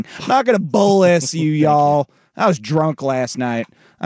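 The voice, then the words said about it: Put-on country twang. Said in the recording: “I'll do it with a little country twang.”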